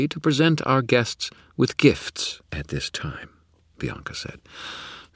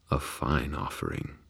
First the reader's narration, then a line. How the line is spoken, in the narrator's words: he muttered